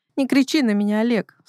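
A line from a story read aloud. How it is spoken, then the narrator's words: Sobbing. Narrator (Russian): всхлипывает Василиса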